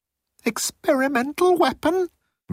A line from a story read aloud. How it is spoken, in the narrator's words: Moan squeaked